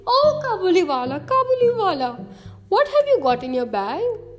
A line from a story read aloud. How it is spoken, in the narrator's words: Minnie would ripple her face with laughter and begin